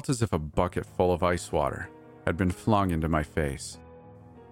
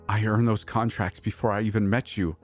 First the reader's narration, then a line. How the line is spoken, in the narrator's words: I gasped defensively, pain searing through my chest